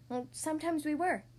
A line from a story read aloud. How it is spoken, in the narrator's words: her abuela whispered